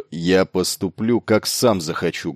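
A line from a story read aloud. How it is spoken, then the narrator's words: Rude interruption. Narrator (Russian): грубо оборвал его Бас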